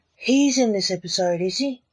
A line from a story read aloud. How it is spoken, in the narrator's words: said excitedly seeing an actor in the show